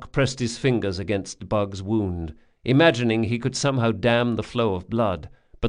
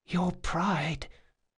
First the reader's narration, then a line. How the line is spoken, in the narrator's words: the boy whispered